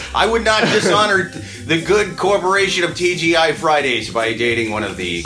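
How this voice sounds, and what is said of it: Usual voice. Nothing is said of it.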